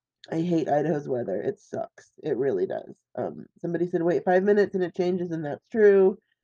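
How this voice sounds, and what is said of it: Raspy, congested sick voice. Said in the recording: “as you can tell from my voice, I'm still sick ... my nose is kind of whatever ... my voice is so raspy”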